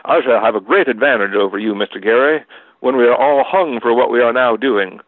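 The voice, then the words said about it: Put-on Southern American accent. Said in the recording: “I should do a southern accent.”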